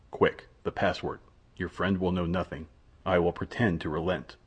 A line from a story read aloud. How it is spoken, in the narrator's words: said in a low voice